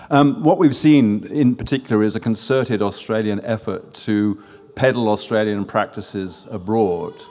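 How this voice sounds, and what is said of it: French accent. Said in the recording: “from my French accent, you can probably gather”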